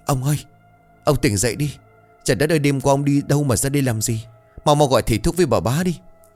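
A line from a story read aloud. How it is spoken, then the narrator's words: Old man trembling. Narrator (Vietnamese): Một đồng lão quản gia run rẩy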